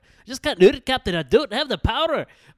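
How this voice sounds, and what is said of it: Scottish accent imitating Scotty. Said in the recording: “talk, like, in a Scottish accent, I would just have to think of lines that Scotty said from Star Trek”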